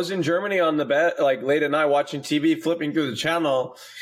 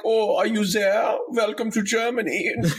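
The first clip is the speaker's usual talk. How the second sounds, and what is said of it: Put-on German accent. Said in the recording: “Oh, that's a great accent. ... a great German accent.”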